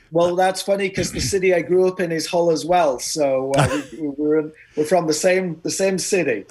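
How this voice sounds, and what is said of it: East Yorkshire accent. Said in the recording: “I guessed East Yorkshire. ... I also get pegged as being from Australia ... Apparently your accent gave you away.”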